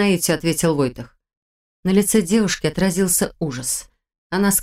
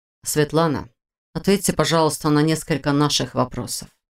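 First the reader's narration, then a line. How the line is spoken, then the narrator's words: Soft request. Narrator (Russian): попросил Войтых все тем же мягким тоном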